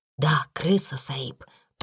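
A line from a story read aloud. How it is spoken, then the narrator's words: Answered in whisper. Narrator (Russian): тоже шепотом ответил Рамдас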